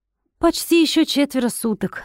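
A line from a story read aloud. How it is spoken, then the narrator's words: Plain. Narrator (Russian): ответила женщина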